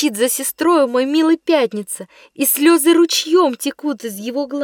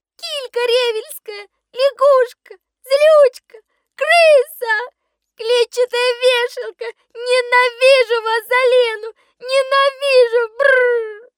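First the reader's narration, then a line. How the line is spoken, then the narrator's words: Loud sobbing crying. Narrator (Russian): он плачет на весь дом, громко всхлипывая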